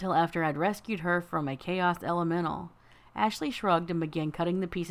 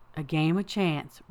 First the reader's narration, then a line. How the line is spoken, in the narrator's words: Rabbit said